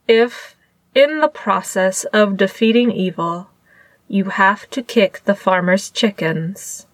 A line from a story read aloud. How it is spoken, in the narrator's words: Lan Zhan said in a perfectly flat tone